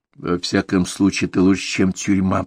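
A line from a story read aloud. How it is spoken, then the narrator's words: Whisper. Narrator (Russian): прошептал адвокат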